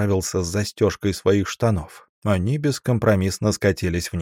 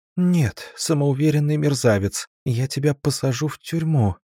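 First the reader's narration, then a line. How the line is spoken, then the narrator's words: Very uncertain, trembling. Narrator (Russian): произнесла очень неуверенно, вздрагивая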